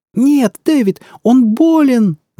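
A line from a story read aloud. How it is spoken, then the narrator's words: Struggling scream. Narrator (Russian): завопила она, беспомощно трепыхаясь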